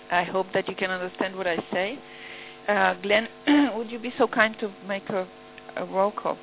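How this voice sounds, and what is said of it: Voice affected by a cold. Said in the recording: “Sorry for my voice. I have a cold.”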